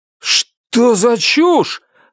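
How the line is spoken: Desperate shout. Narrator (Russian): отчаянно крикнул Ричард

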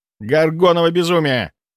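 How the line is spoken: Startled shout. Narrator (Russian): выкрикнул я от неожиданности

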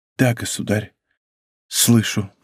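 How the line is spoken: Whisper, queen. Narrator (Russian): прошептала королева

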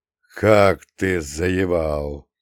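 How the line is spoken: Almost moaning. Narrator (Russian): почти простонал Дмитрий Русланович

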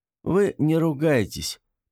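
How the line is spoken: Conciliatory tone. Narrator (Russian): примирительным тоном произнес он

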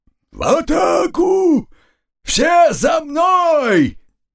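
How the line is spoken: Yelling. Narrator (Russian): Критиил продолжал вопить

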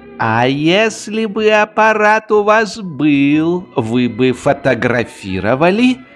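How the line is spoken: Plain. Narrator (Russian): спросил вахмистр

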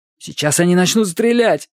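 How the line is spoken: Panicked exclamation. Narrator (Russian): в панике воскликнул Сет

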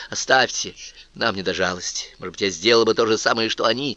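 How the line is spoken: Dry, curt. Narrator (Russian): Ася сухо сказала

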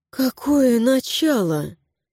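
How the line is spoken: Sighing woman. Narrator (Russian): Вздохнула женщина

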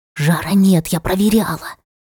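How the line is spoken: Whisper. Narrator (Russian): зашептала Надка

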